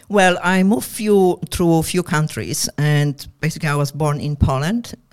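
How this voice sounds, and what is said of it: Mixed Eastern European and Australian accent. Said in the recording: “the mix of accents. ... It's Russian or German, it's Polish or something European style. ... a bit of combination of Australian”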